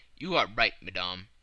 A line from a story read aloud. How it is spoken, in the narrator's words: replied Fix